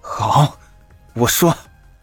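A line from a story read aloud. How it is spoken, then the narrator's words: Through gritted teeth. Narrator (Chinese): 荣锦言狠狠一咬牙，道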